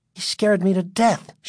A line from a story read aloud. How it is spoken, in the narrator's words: Sherry exclaimed